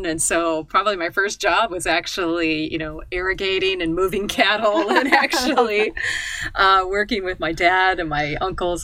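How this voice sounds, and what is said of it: American Midwestern accent. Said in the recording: “as you might hear from my accent, I'm a native Nebraskan. I'm a native of the United States, Midwest of the United States.”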